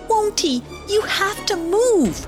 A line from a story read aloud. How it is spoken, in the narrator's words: cried Wynotty